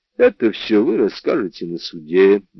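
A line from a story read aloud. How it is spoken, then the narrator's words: Soft, gentle voice. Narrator (Russian): мягко сказал О'Мэлли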